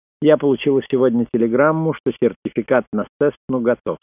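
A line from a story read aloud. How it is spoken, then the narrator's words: Plain. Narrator (Russian): сказала она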